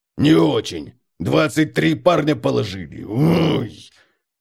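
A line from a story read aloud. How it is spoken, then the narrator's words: Barked. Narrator (Russian): Бемельберг поморщился, язычно гаркнул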